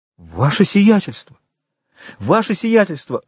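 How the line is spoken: Horrified exclamation. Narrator (Russian): воскликнул управляющий в ужасе от этой угрозы

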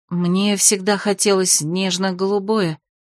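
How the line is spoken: Sighing. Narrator (Russian): вздохнула Дора

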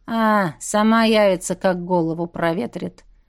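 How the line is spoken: Lazy, offhand. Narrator (Russian): Лениво бросил Дэн

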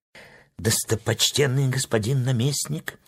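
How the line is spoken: Quiet speech. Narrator (Russian): тихо заговорил живун

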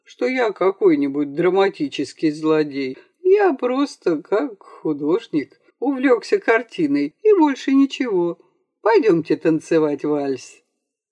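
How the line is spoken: Cheerful good-natured exclamation. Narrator (Russian): воскликнул он веселым, добродушным голосом

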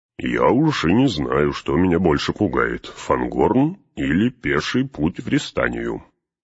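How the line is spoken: Grumbling. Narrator (Russian): проворчал Гимли

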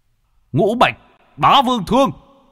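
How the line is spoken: Shout. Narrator (Vietnamese): Bạch Hổ quát

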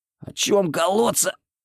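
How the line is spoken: Hoarse, out of breath. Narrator (Russian): прохрипел я, переводя дух

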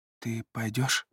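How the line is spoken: Quiet question. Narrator (Russian): тихо спрашивает Ромели

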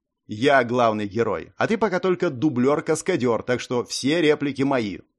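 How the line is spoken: Smirking. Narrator (Russian): хмыкнул

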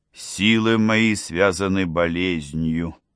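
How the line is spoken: Gloomy. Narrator (Russian): сказал мрачно

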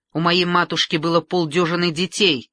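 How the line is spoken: Angry reply. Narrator (Russian): сердито отозвалась Екатерина

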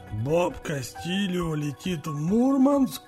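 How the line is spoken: Surprised hoarse phone voice. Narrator (Russian): удивленно прохрипел голос в трубке

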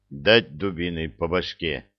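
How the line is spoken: Menacing deep bass. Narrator (Russian): басил грозно Простаков

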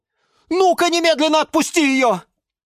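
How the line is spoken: Yell. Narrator (Russian): завопил Юра

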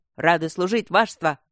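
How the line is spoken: Guards barking in unison. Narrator (Russian): рявкнули гвардейцы

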